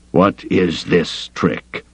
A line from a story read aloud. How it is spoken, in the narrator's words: he growled